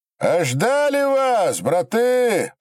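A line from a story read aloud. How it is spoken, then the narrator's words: Sincere shout. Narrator (Russian): прокричали не в издевку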